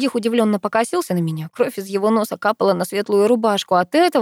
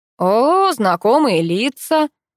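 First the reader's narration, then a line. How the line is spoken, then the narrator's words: Drawling thug. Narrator (Russian): протянул амбал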